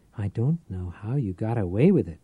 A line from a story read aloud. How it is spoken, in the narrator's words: Tate whispered